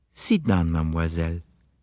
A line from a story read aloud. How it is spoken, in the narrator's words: he said kindly